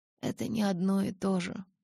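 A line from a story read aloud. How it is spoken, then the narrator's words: Mutter. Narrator (Russian): пробормотала я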